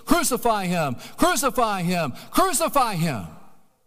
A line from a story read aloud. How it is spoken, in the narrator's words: they shouted out with a craze